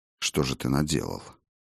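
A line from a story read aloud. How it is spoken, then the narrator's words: Whisper. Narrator (Russian): прошептал я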